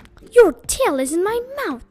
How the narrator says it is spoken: cried one of the youths

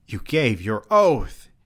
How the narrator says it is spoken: she cried

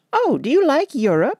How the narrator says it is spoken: she exclaimed surprisingly

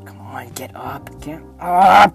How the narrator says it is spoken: Jack growled to himself

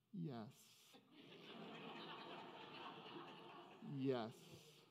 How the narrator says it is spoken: In a very tiny voice, he said

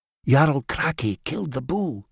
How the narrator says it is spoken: she whispered

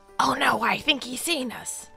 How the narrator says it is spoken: A startled voice then whispered loud

